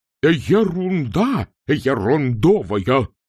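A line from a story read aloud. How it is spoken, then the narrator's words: Furious roar. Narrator (Russian): взревел декан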